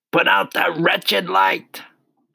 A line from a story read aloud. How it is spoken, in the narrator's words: he shouted